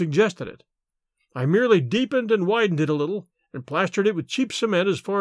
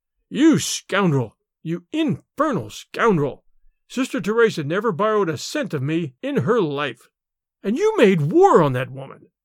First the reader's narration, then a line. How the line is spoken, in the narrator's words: His rage choked him